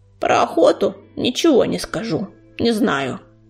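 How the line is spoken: Creaky voice. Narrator (Russian): проскрипел он

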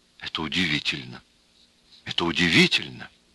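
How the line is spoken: Amazed whisper. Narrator (Russian): Селивановский пораженно шептал

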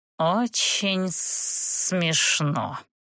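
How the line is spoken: Dragon's hiss. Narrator (Russian): прошипел дракон

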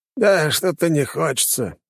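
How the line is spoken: Muttering. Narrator (Russian): пробурчал Савелий

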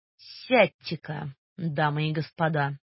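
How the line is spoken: Imposing deep bass. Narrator (Russian): Необычайно внушительно пробасил Гош

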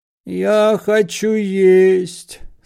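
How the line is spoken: Moaning. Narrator (Russian): стонал Паниковский

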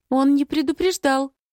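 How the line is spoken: Uncertain. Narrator (Russian): проговаривает неуверенно

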